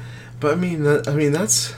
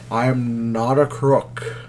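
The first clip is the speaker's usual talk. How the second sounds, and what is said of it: Nixon impression. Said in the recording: “my impersonation of Cage would sound like Nixon”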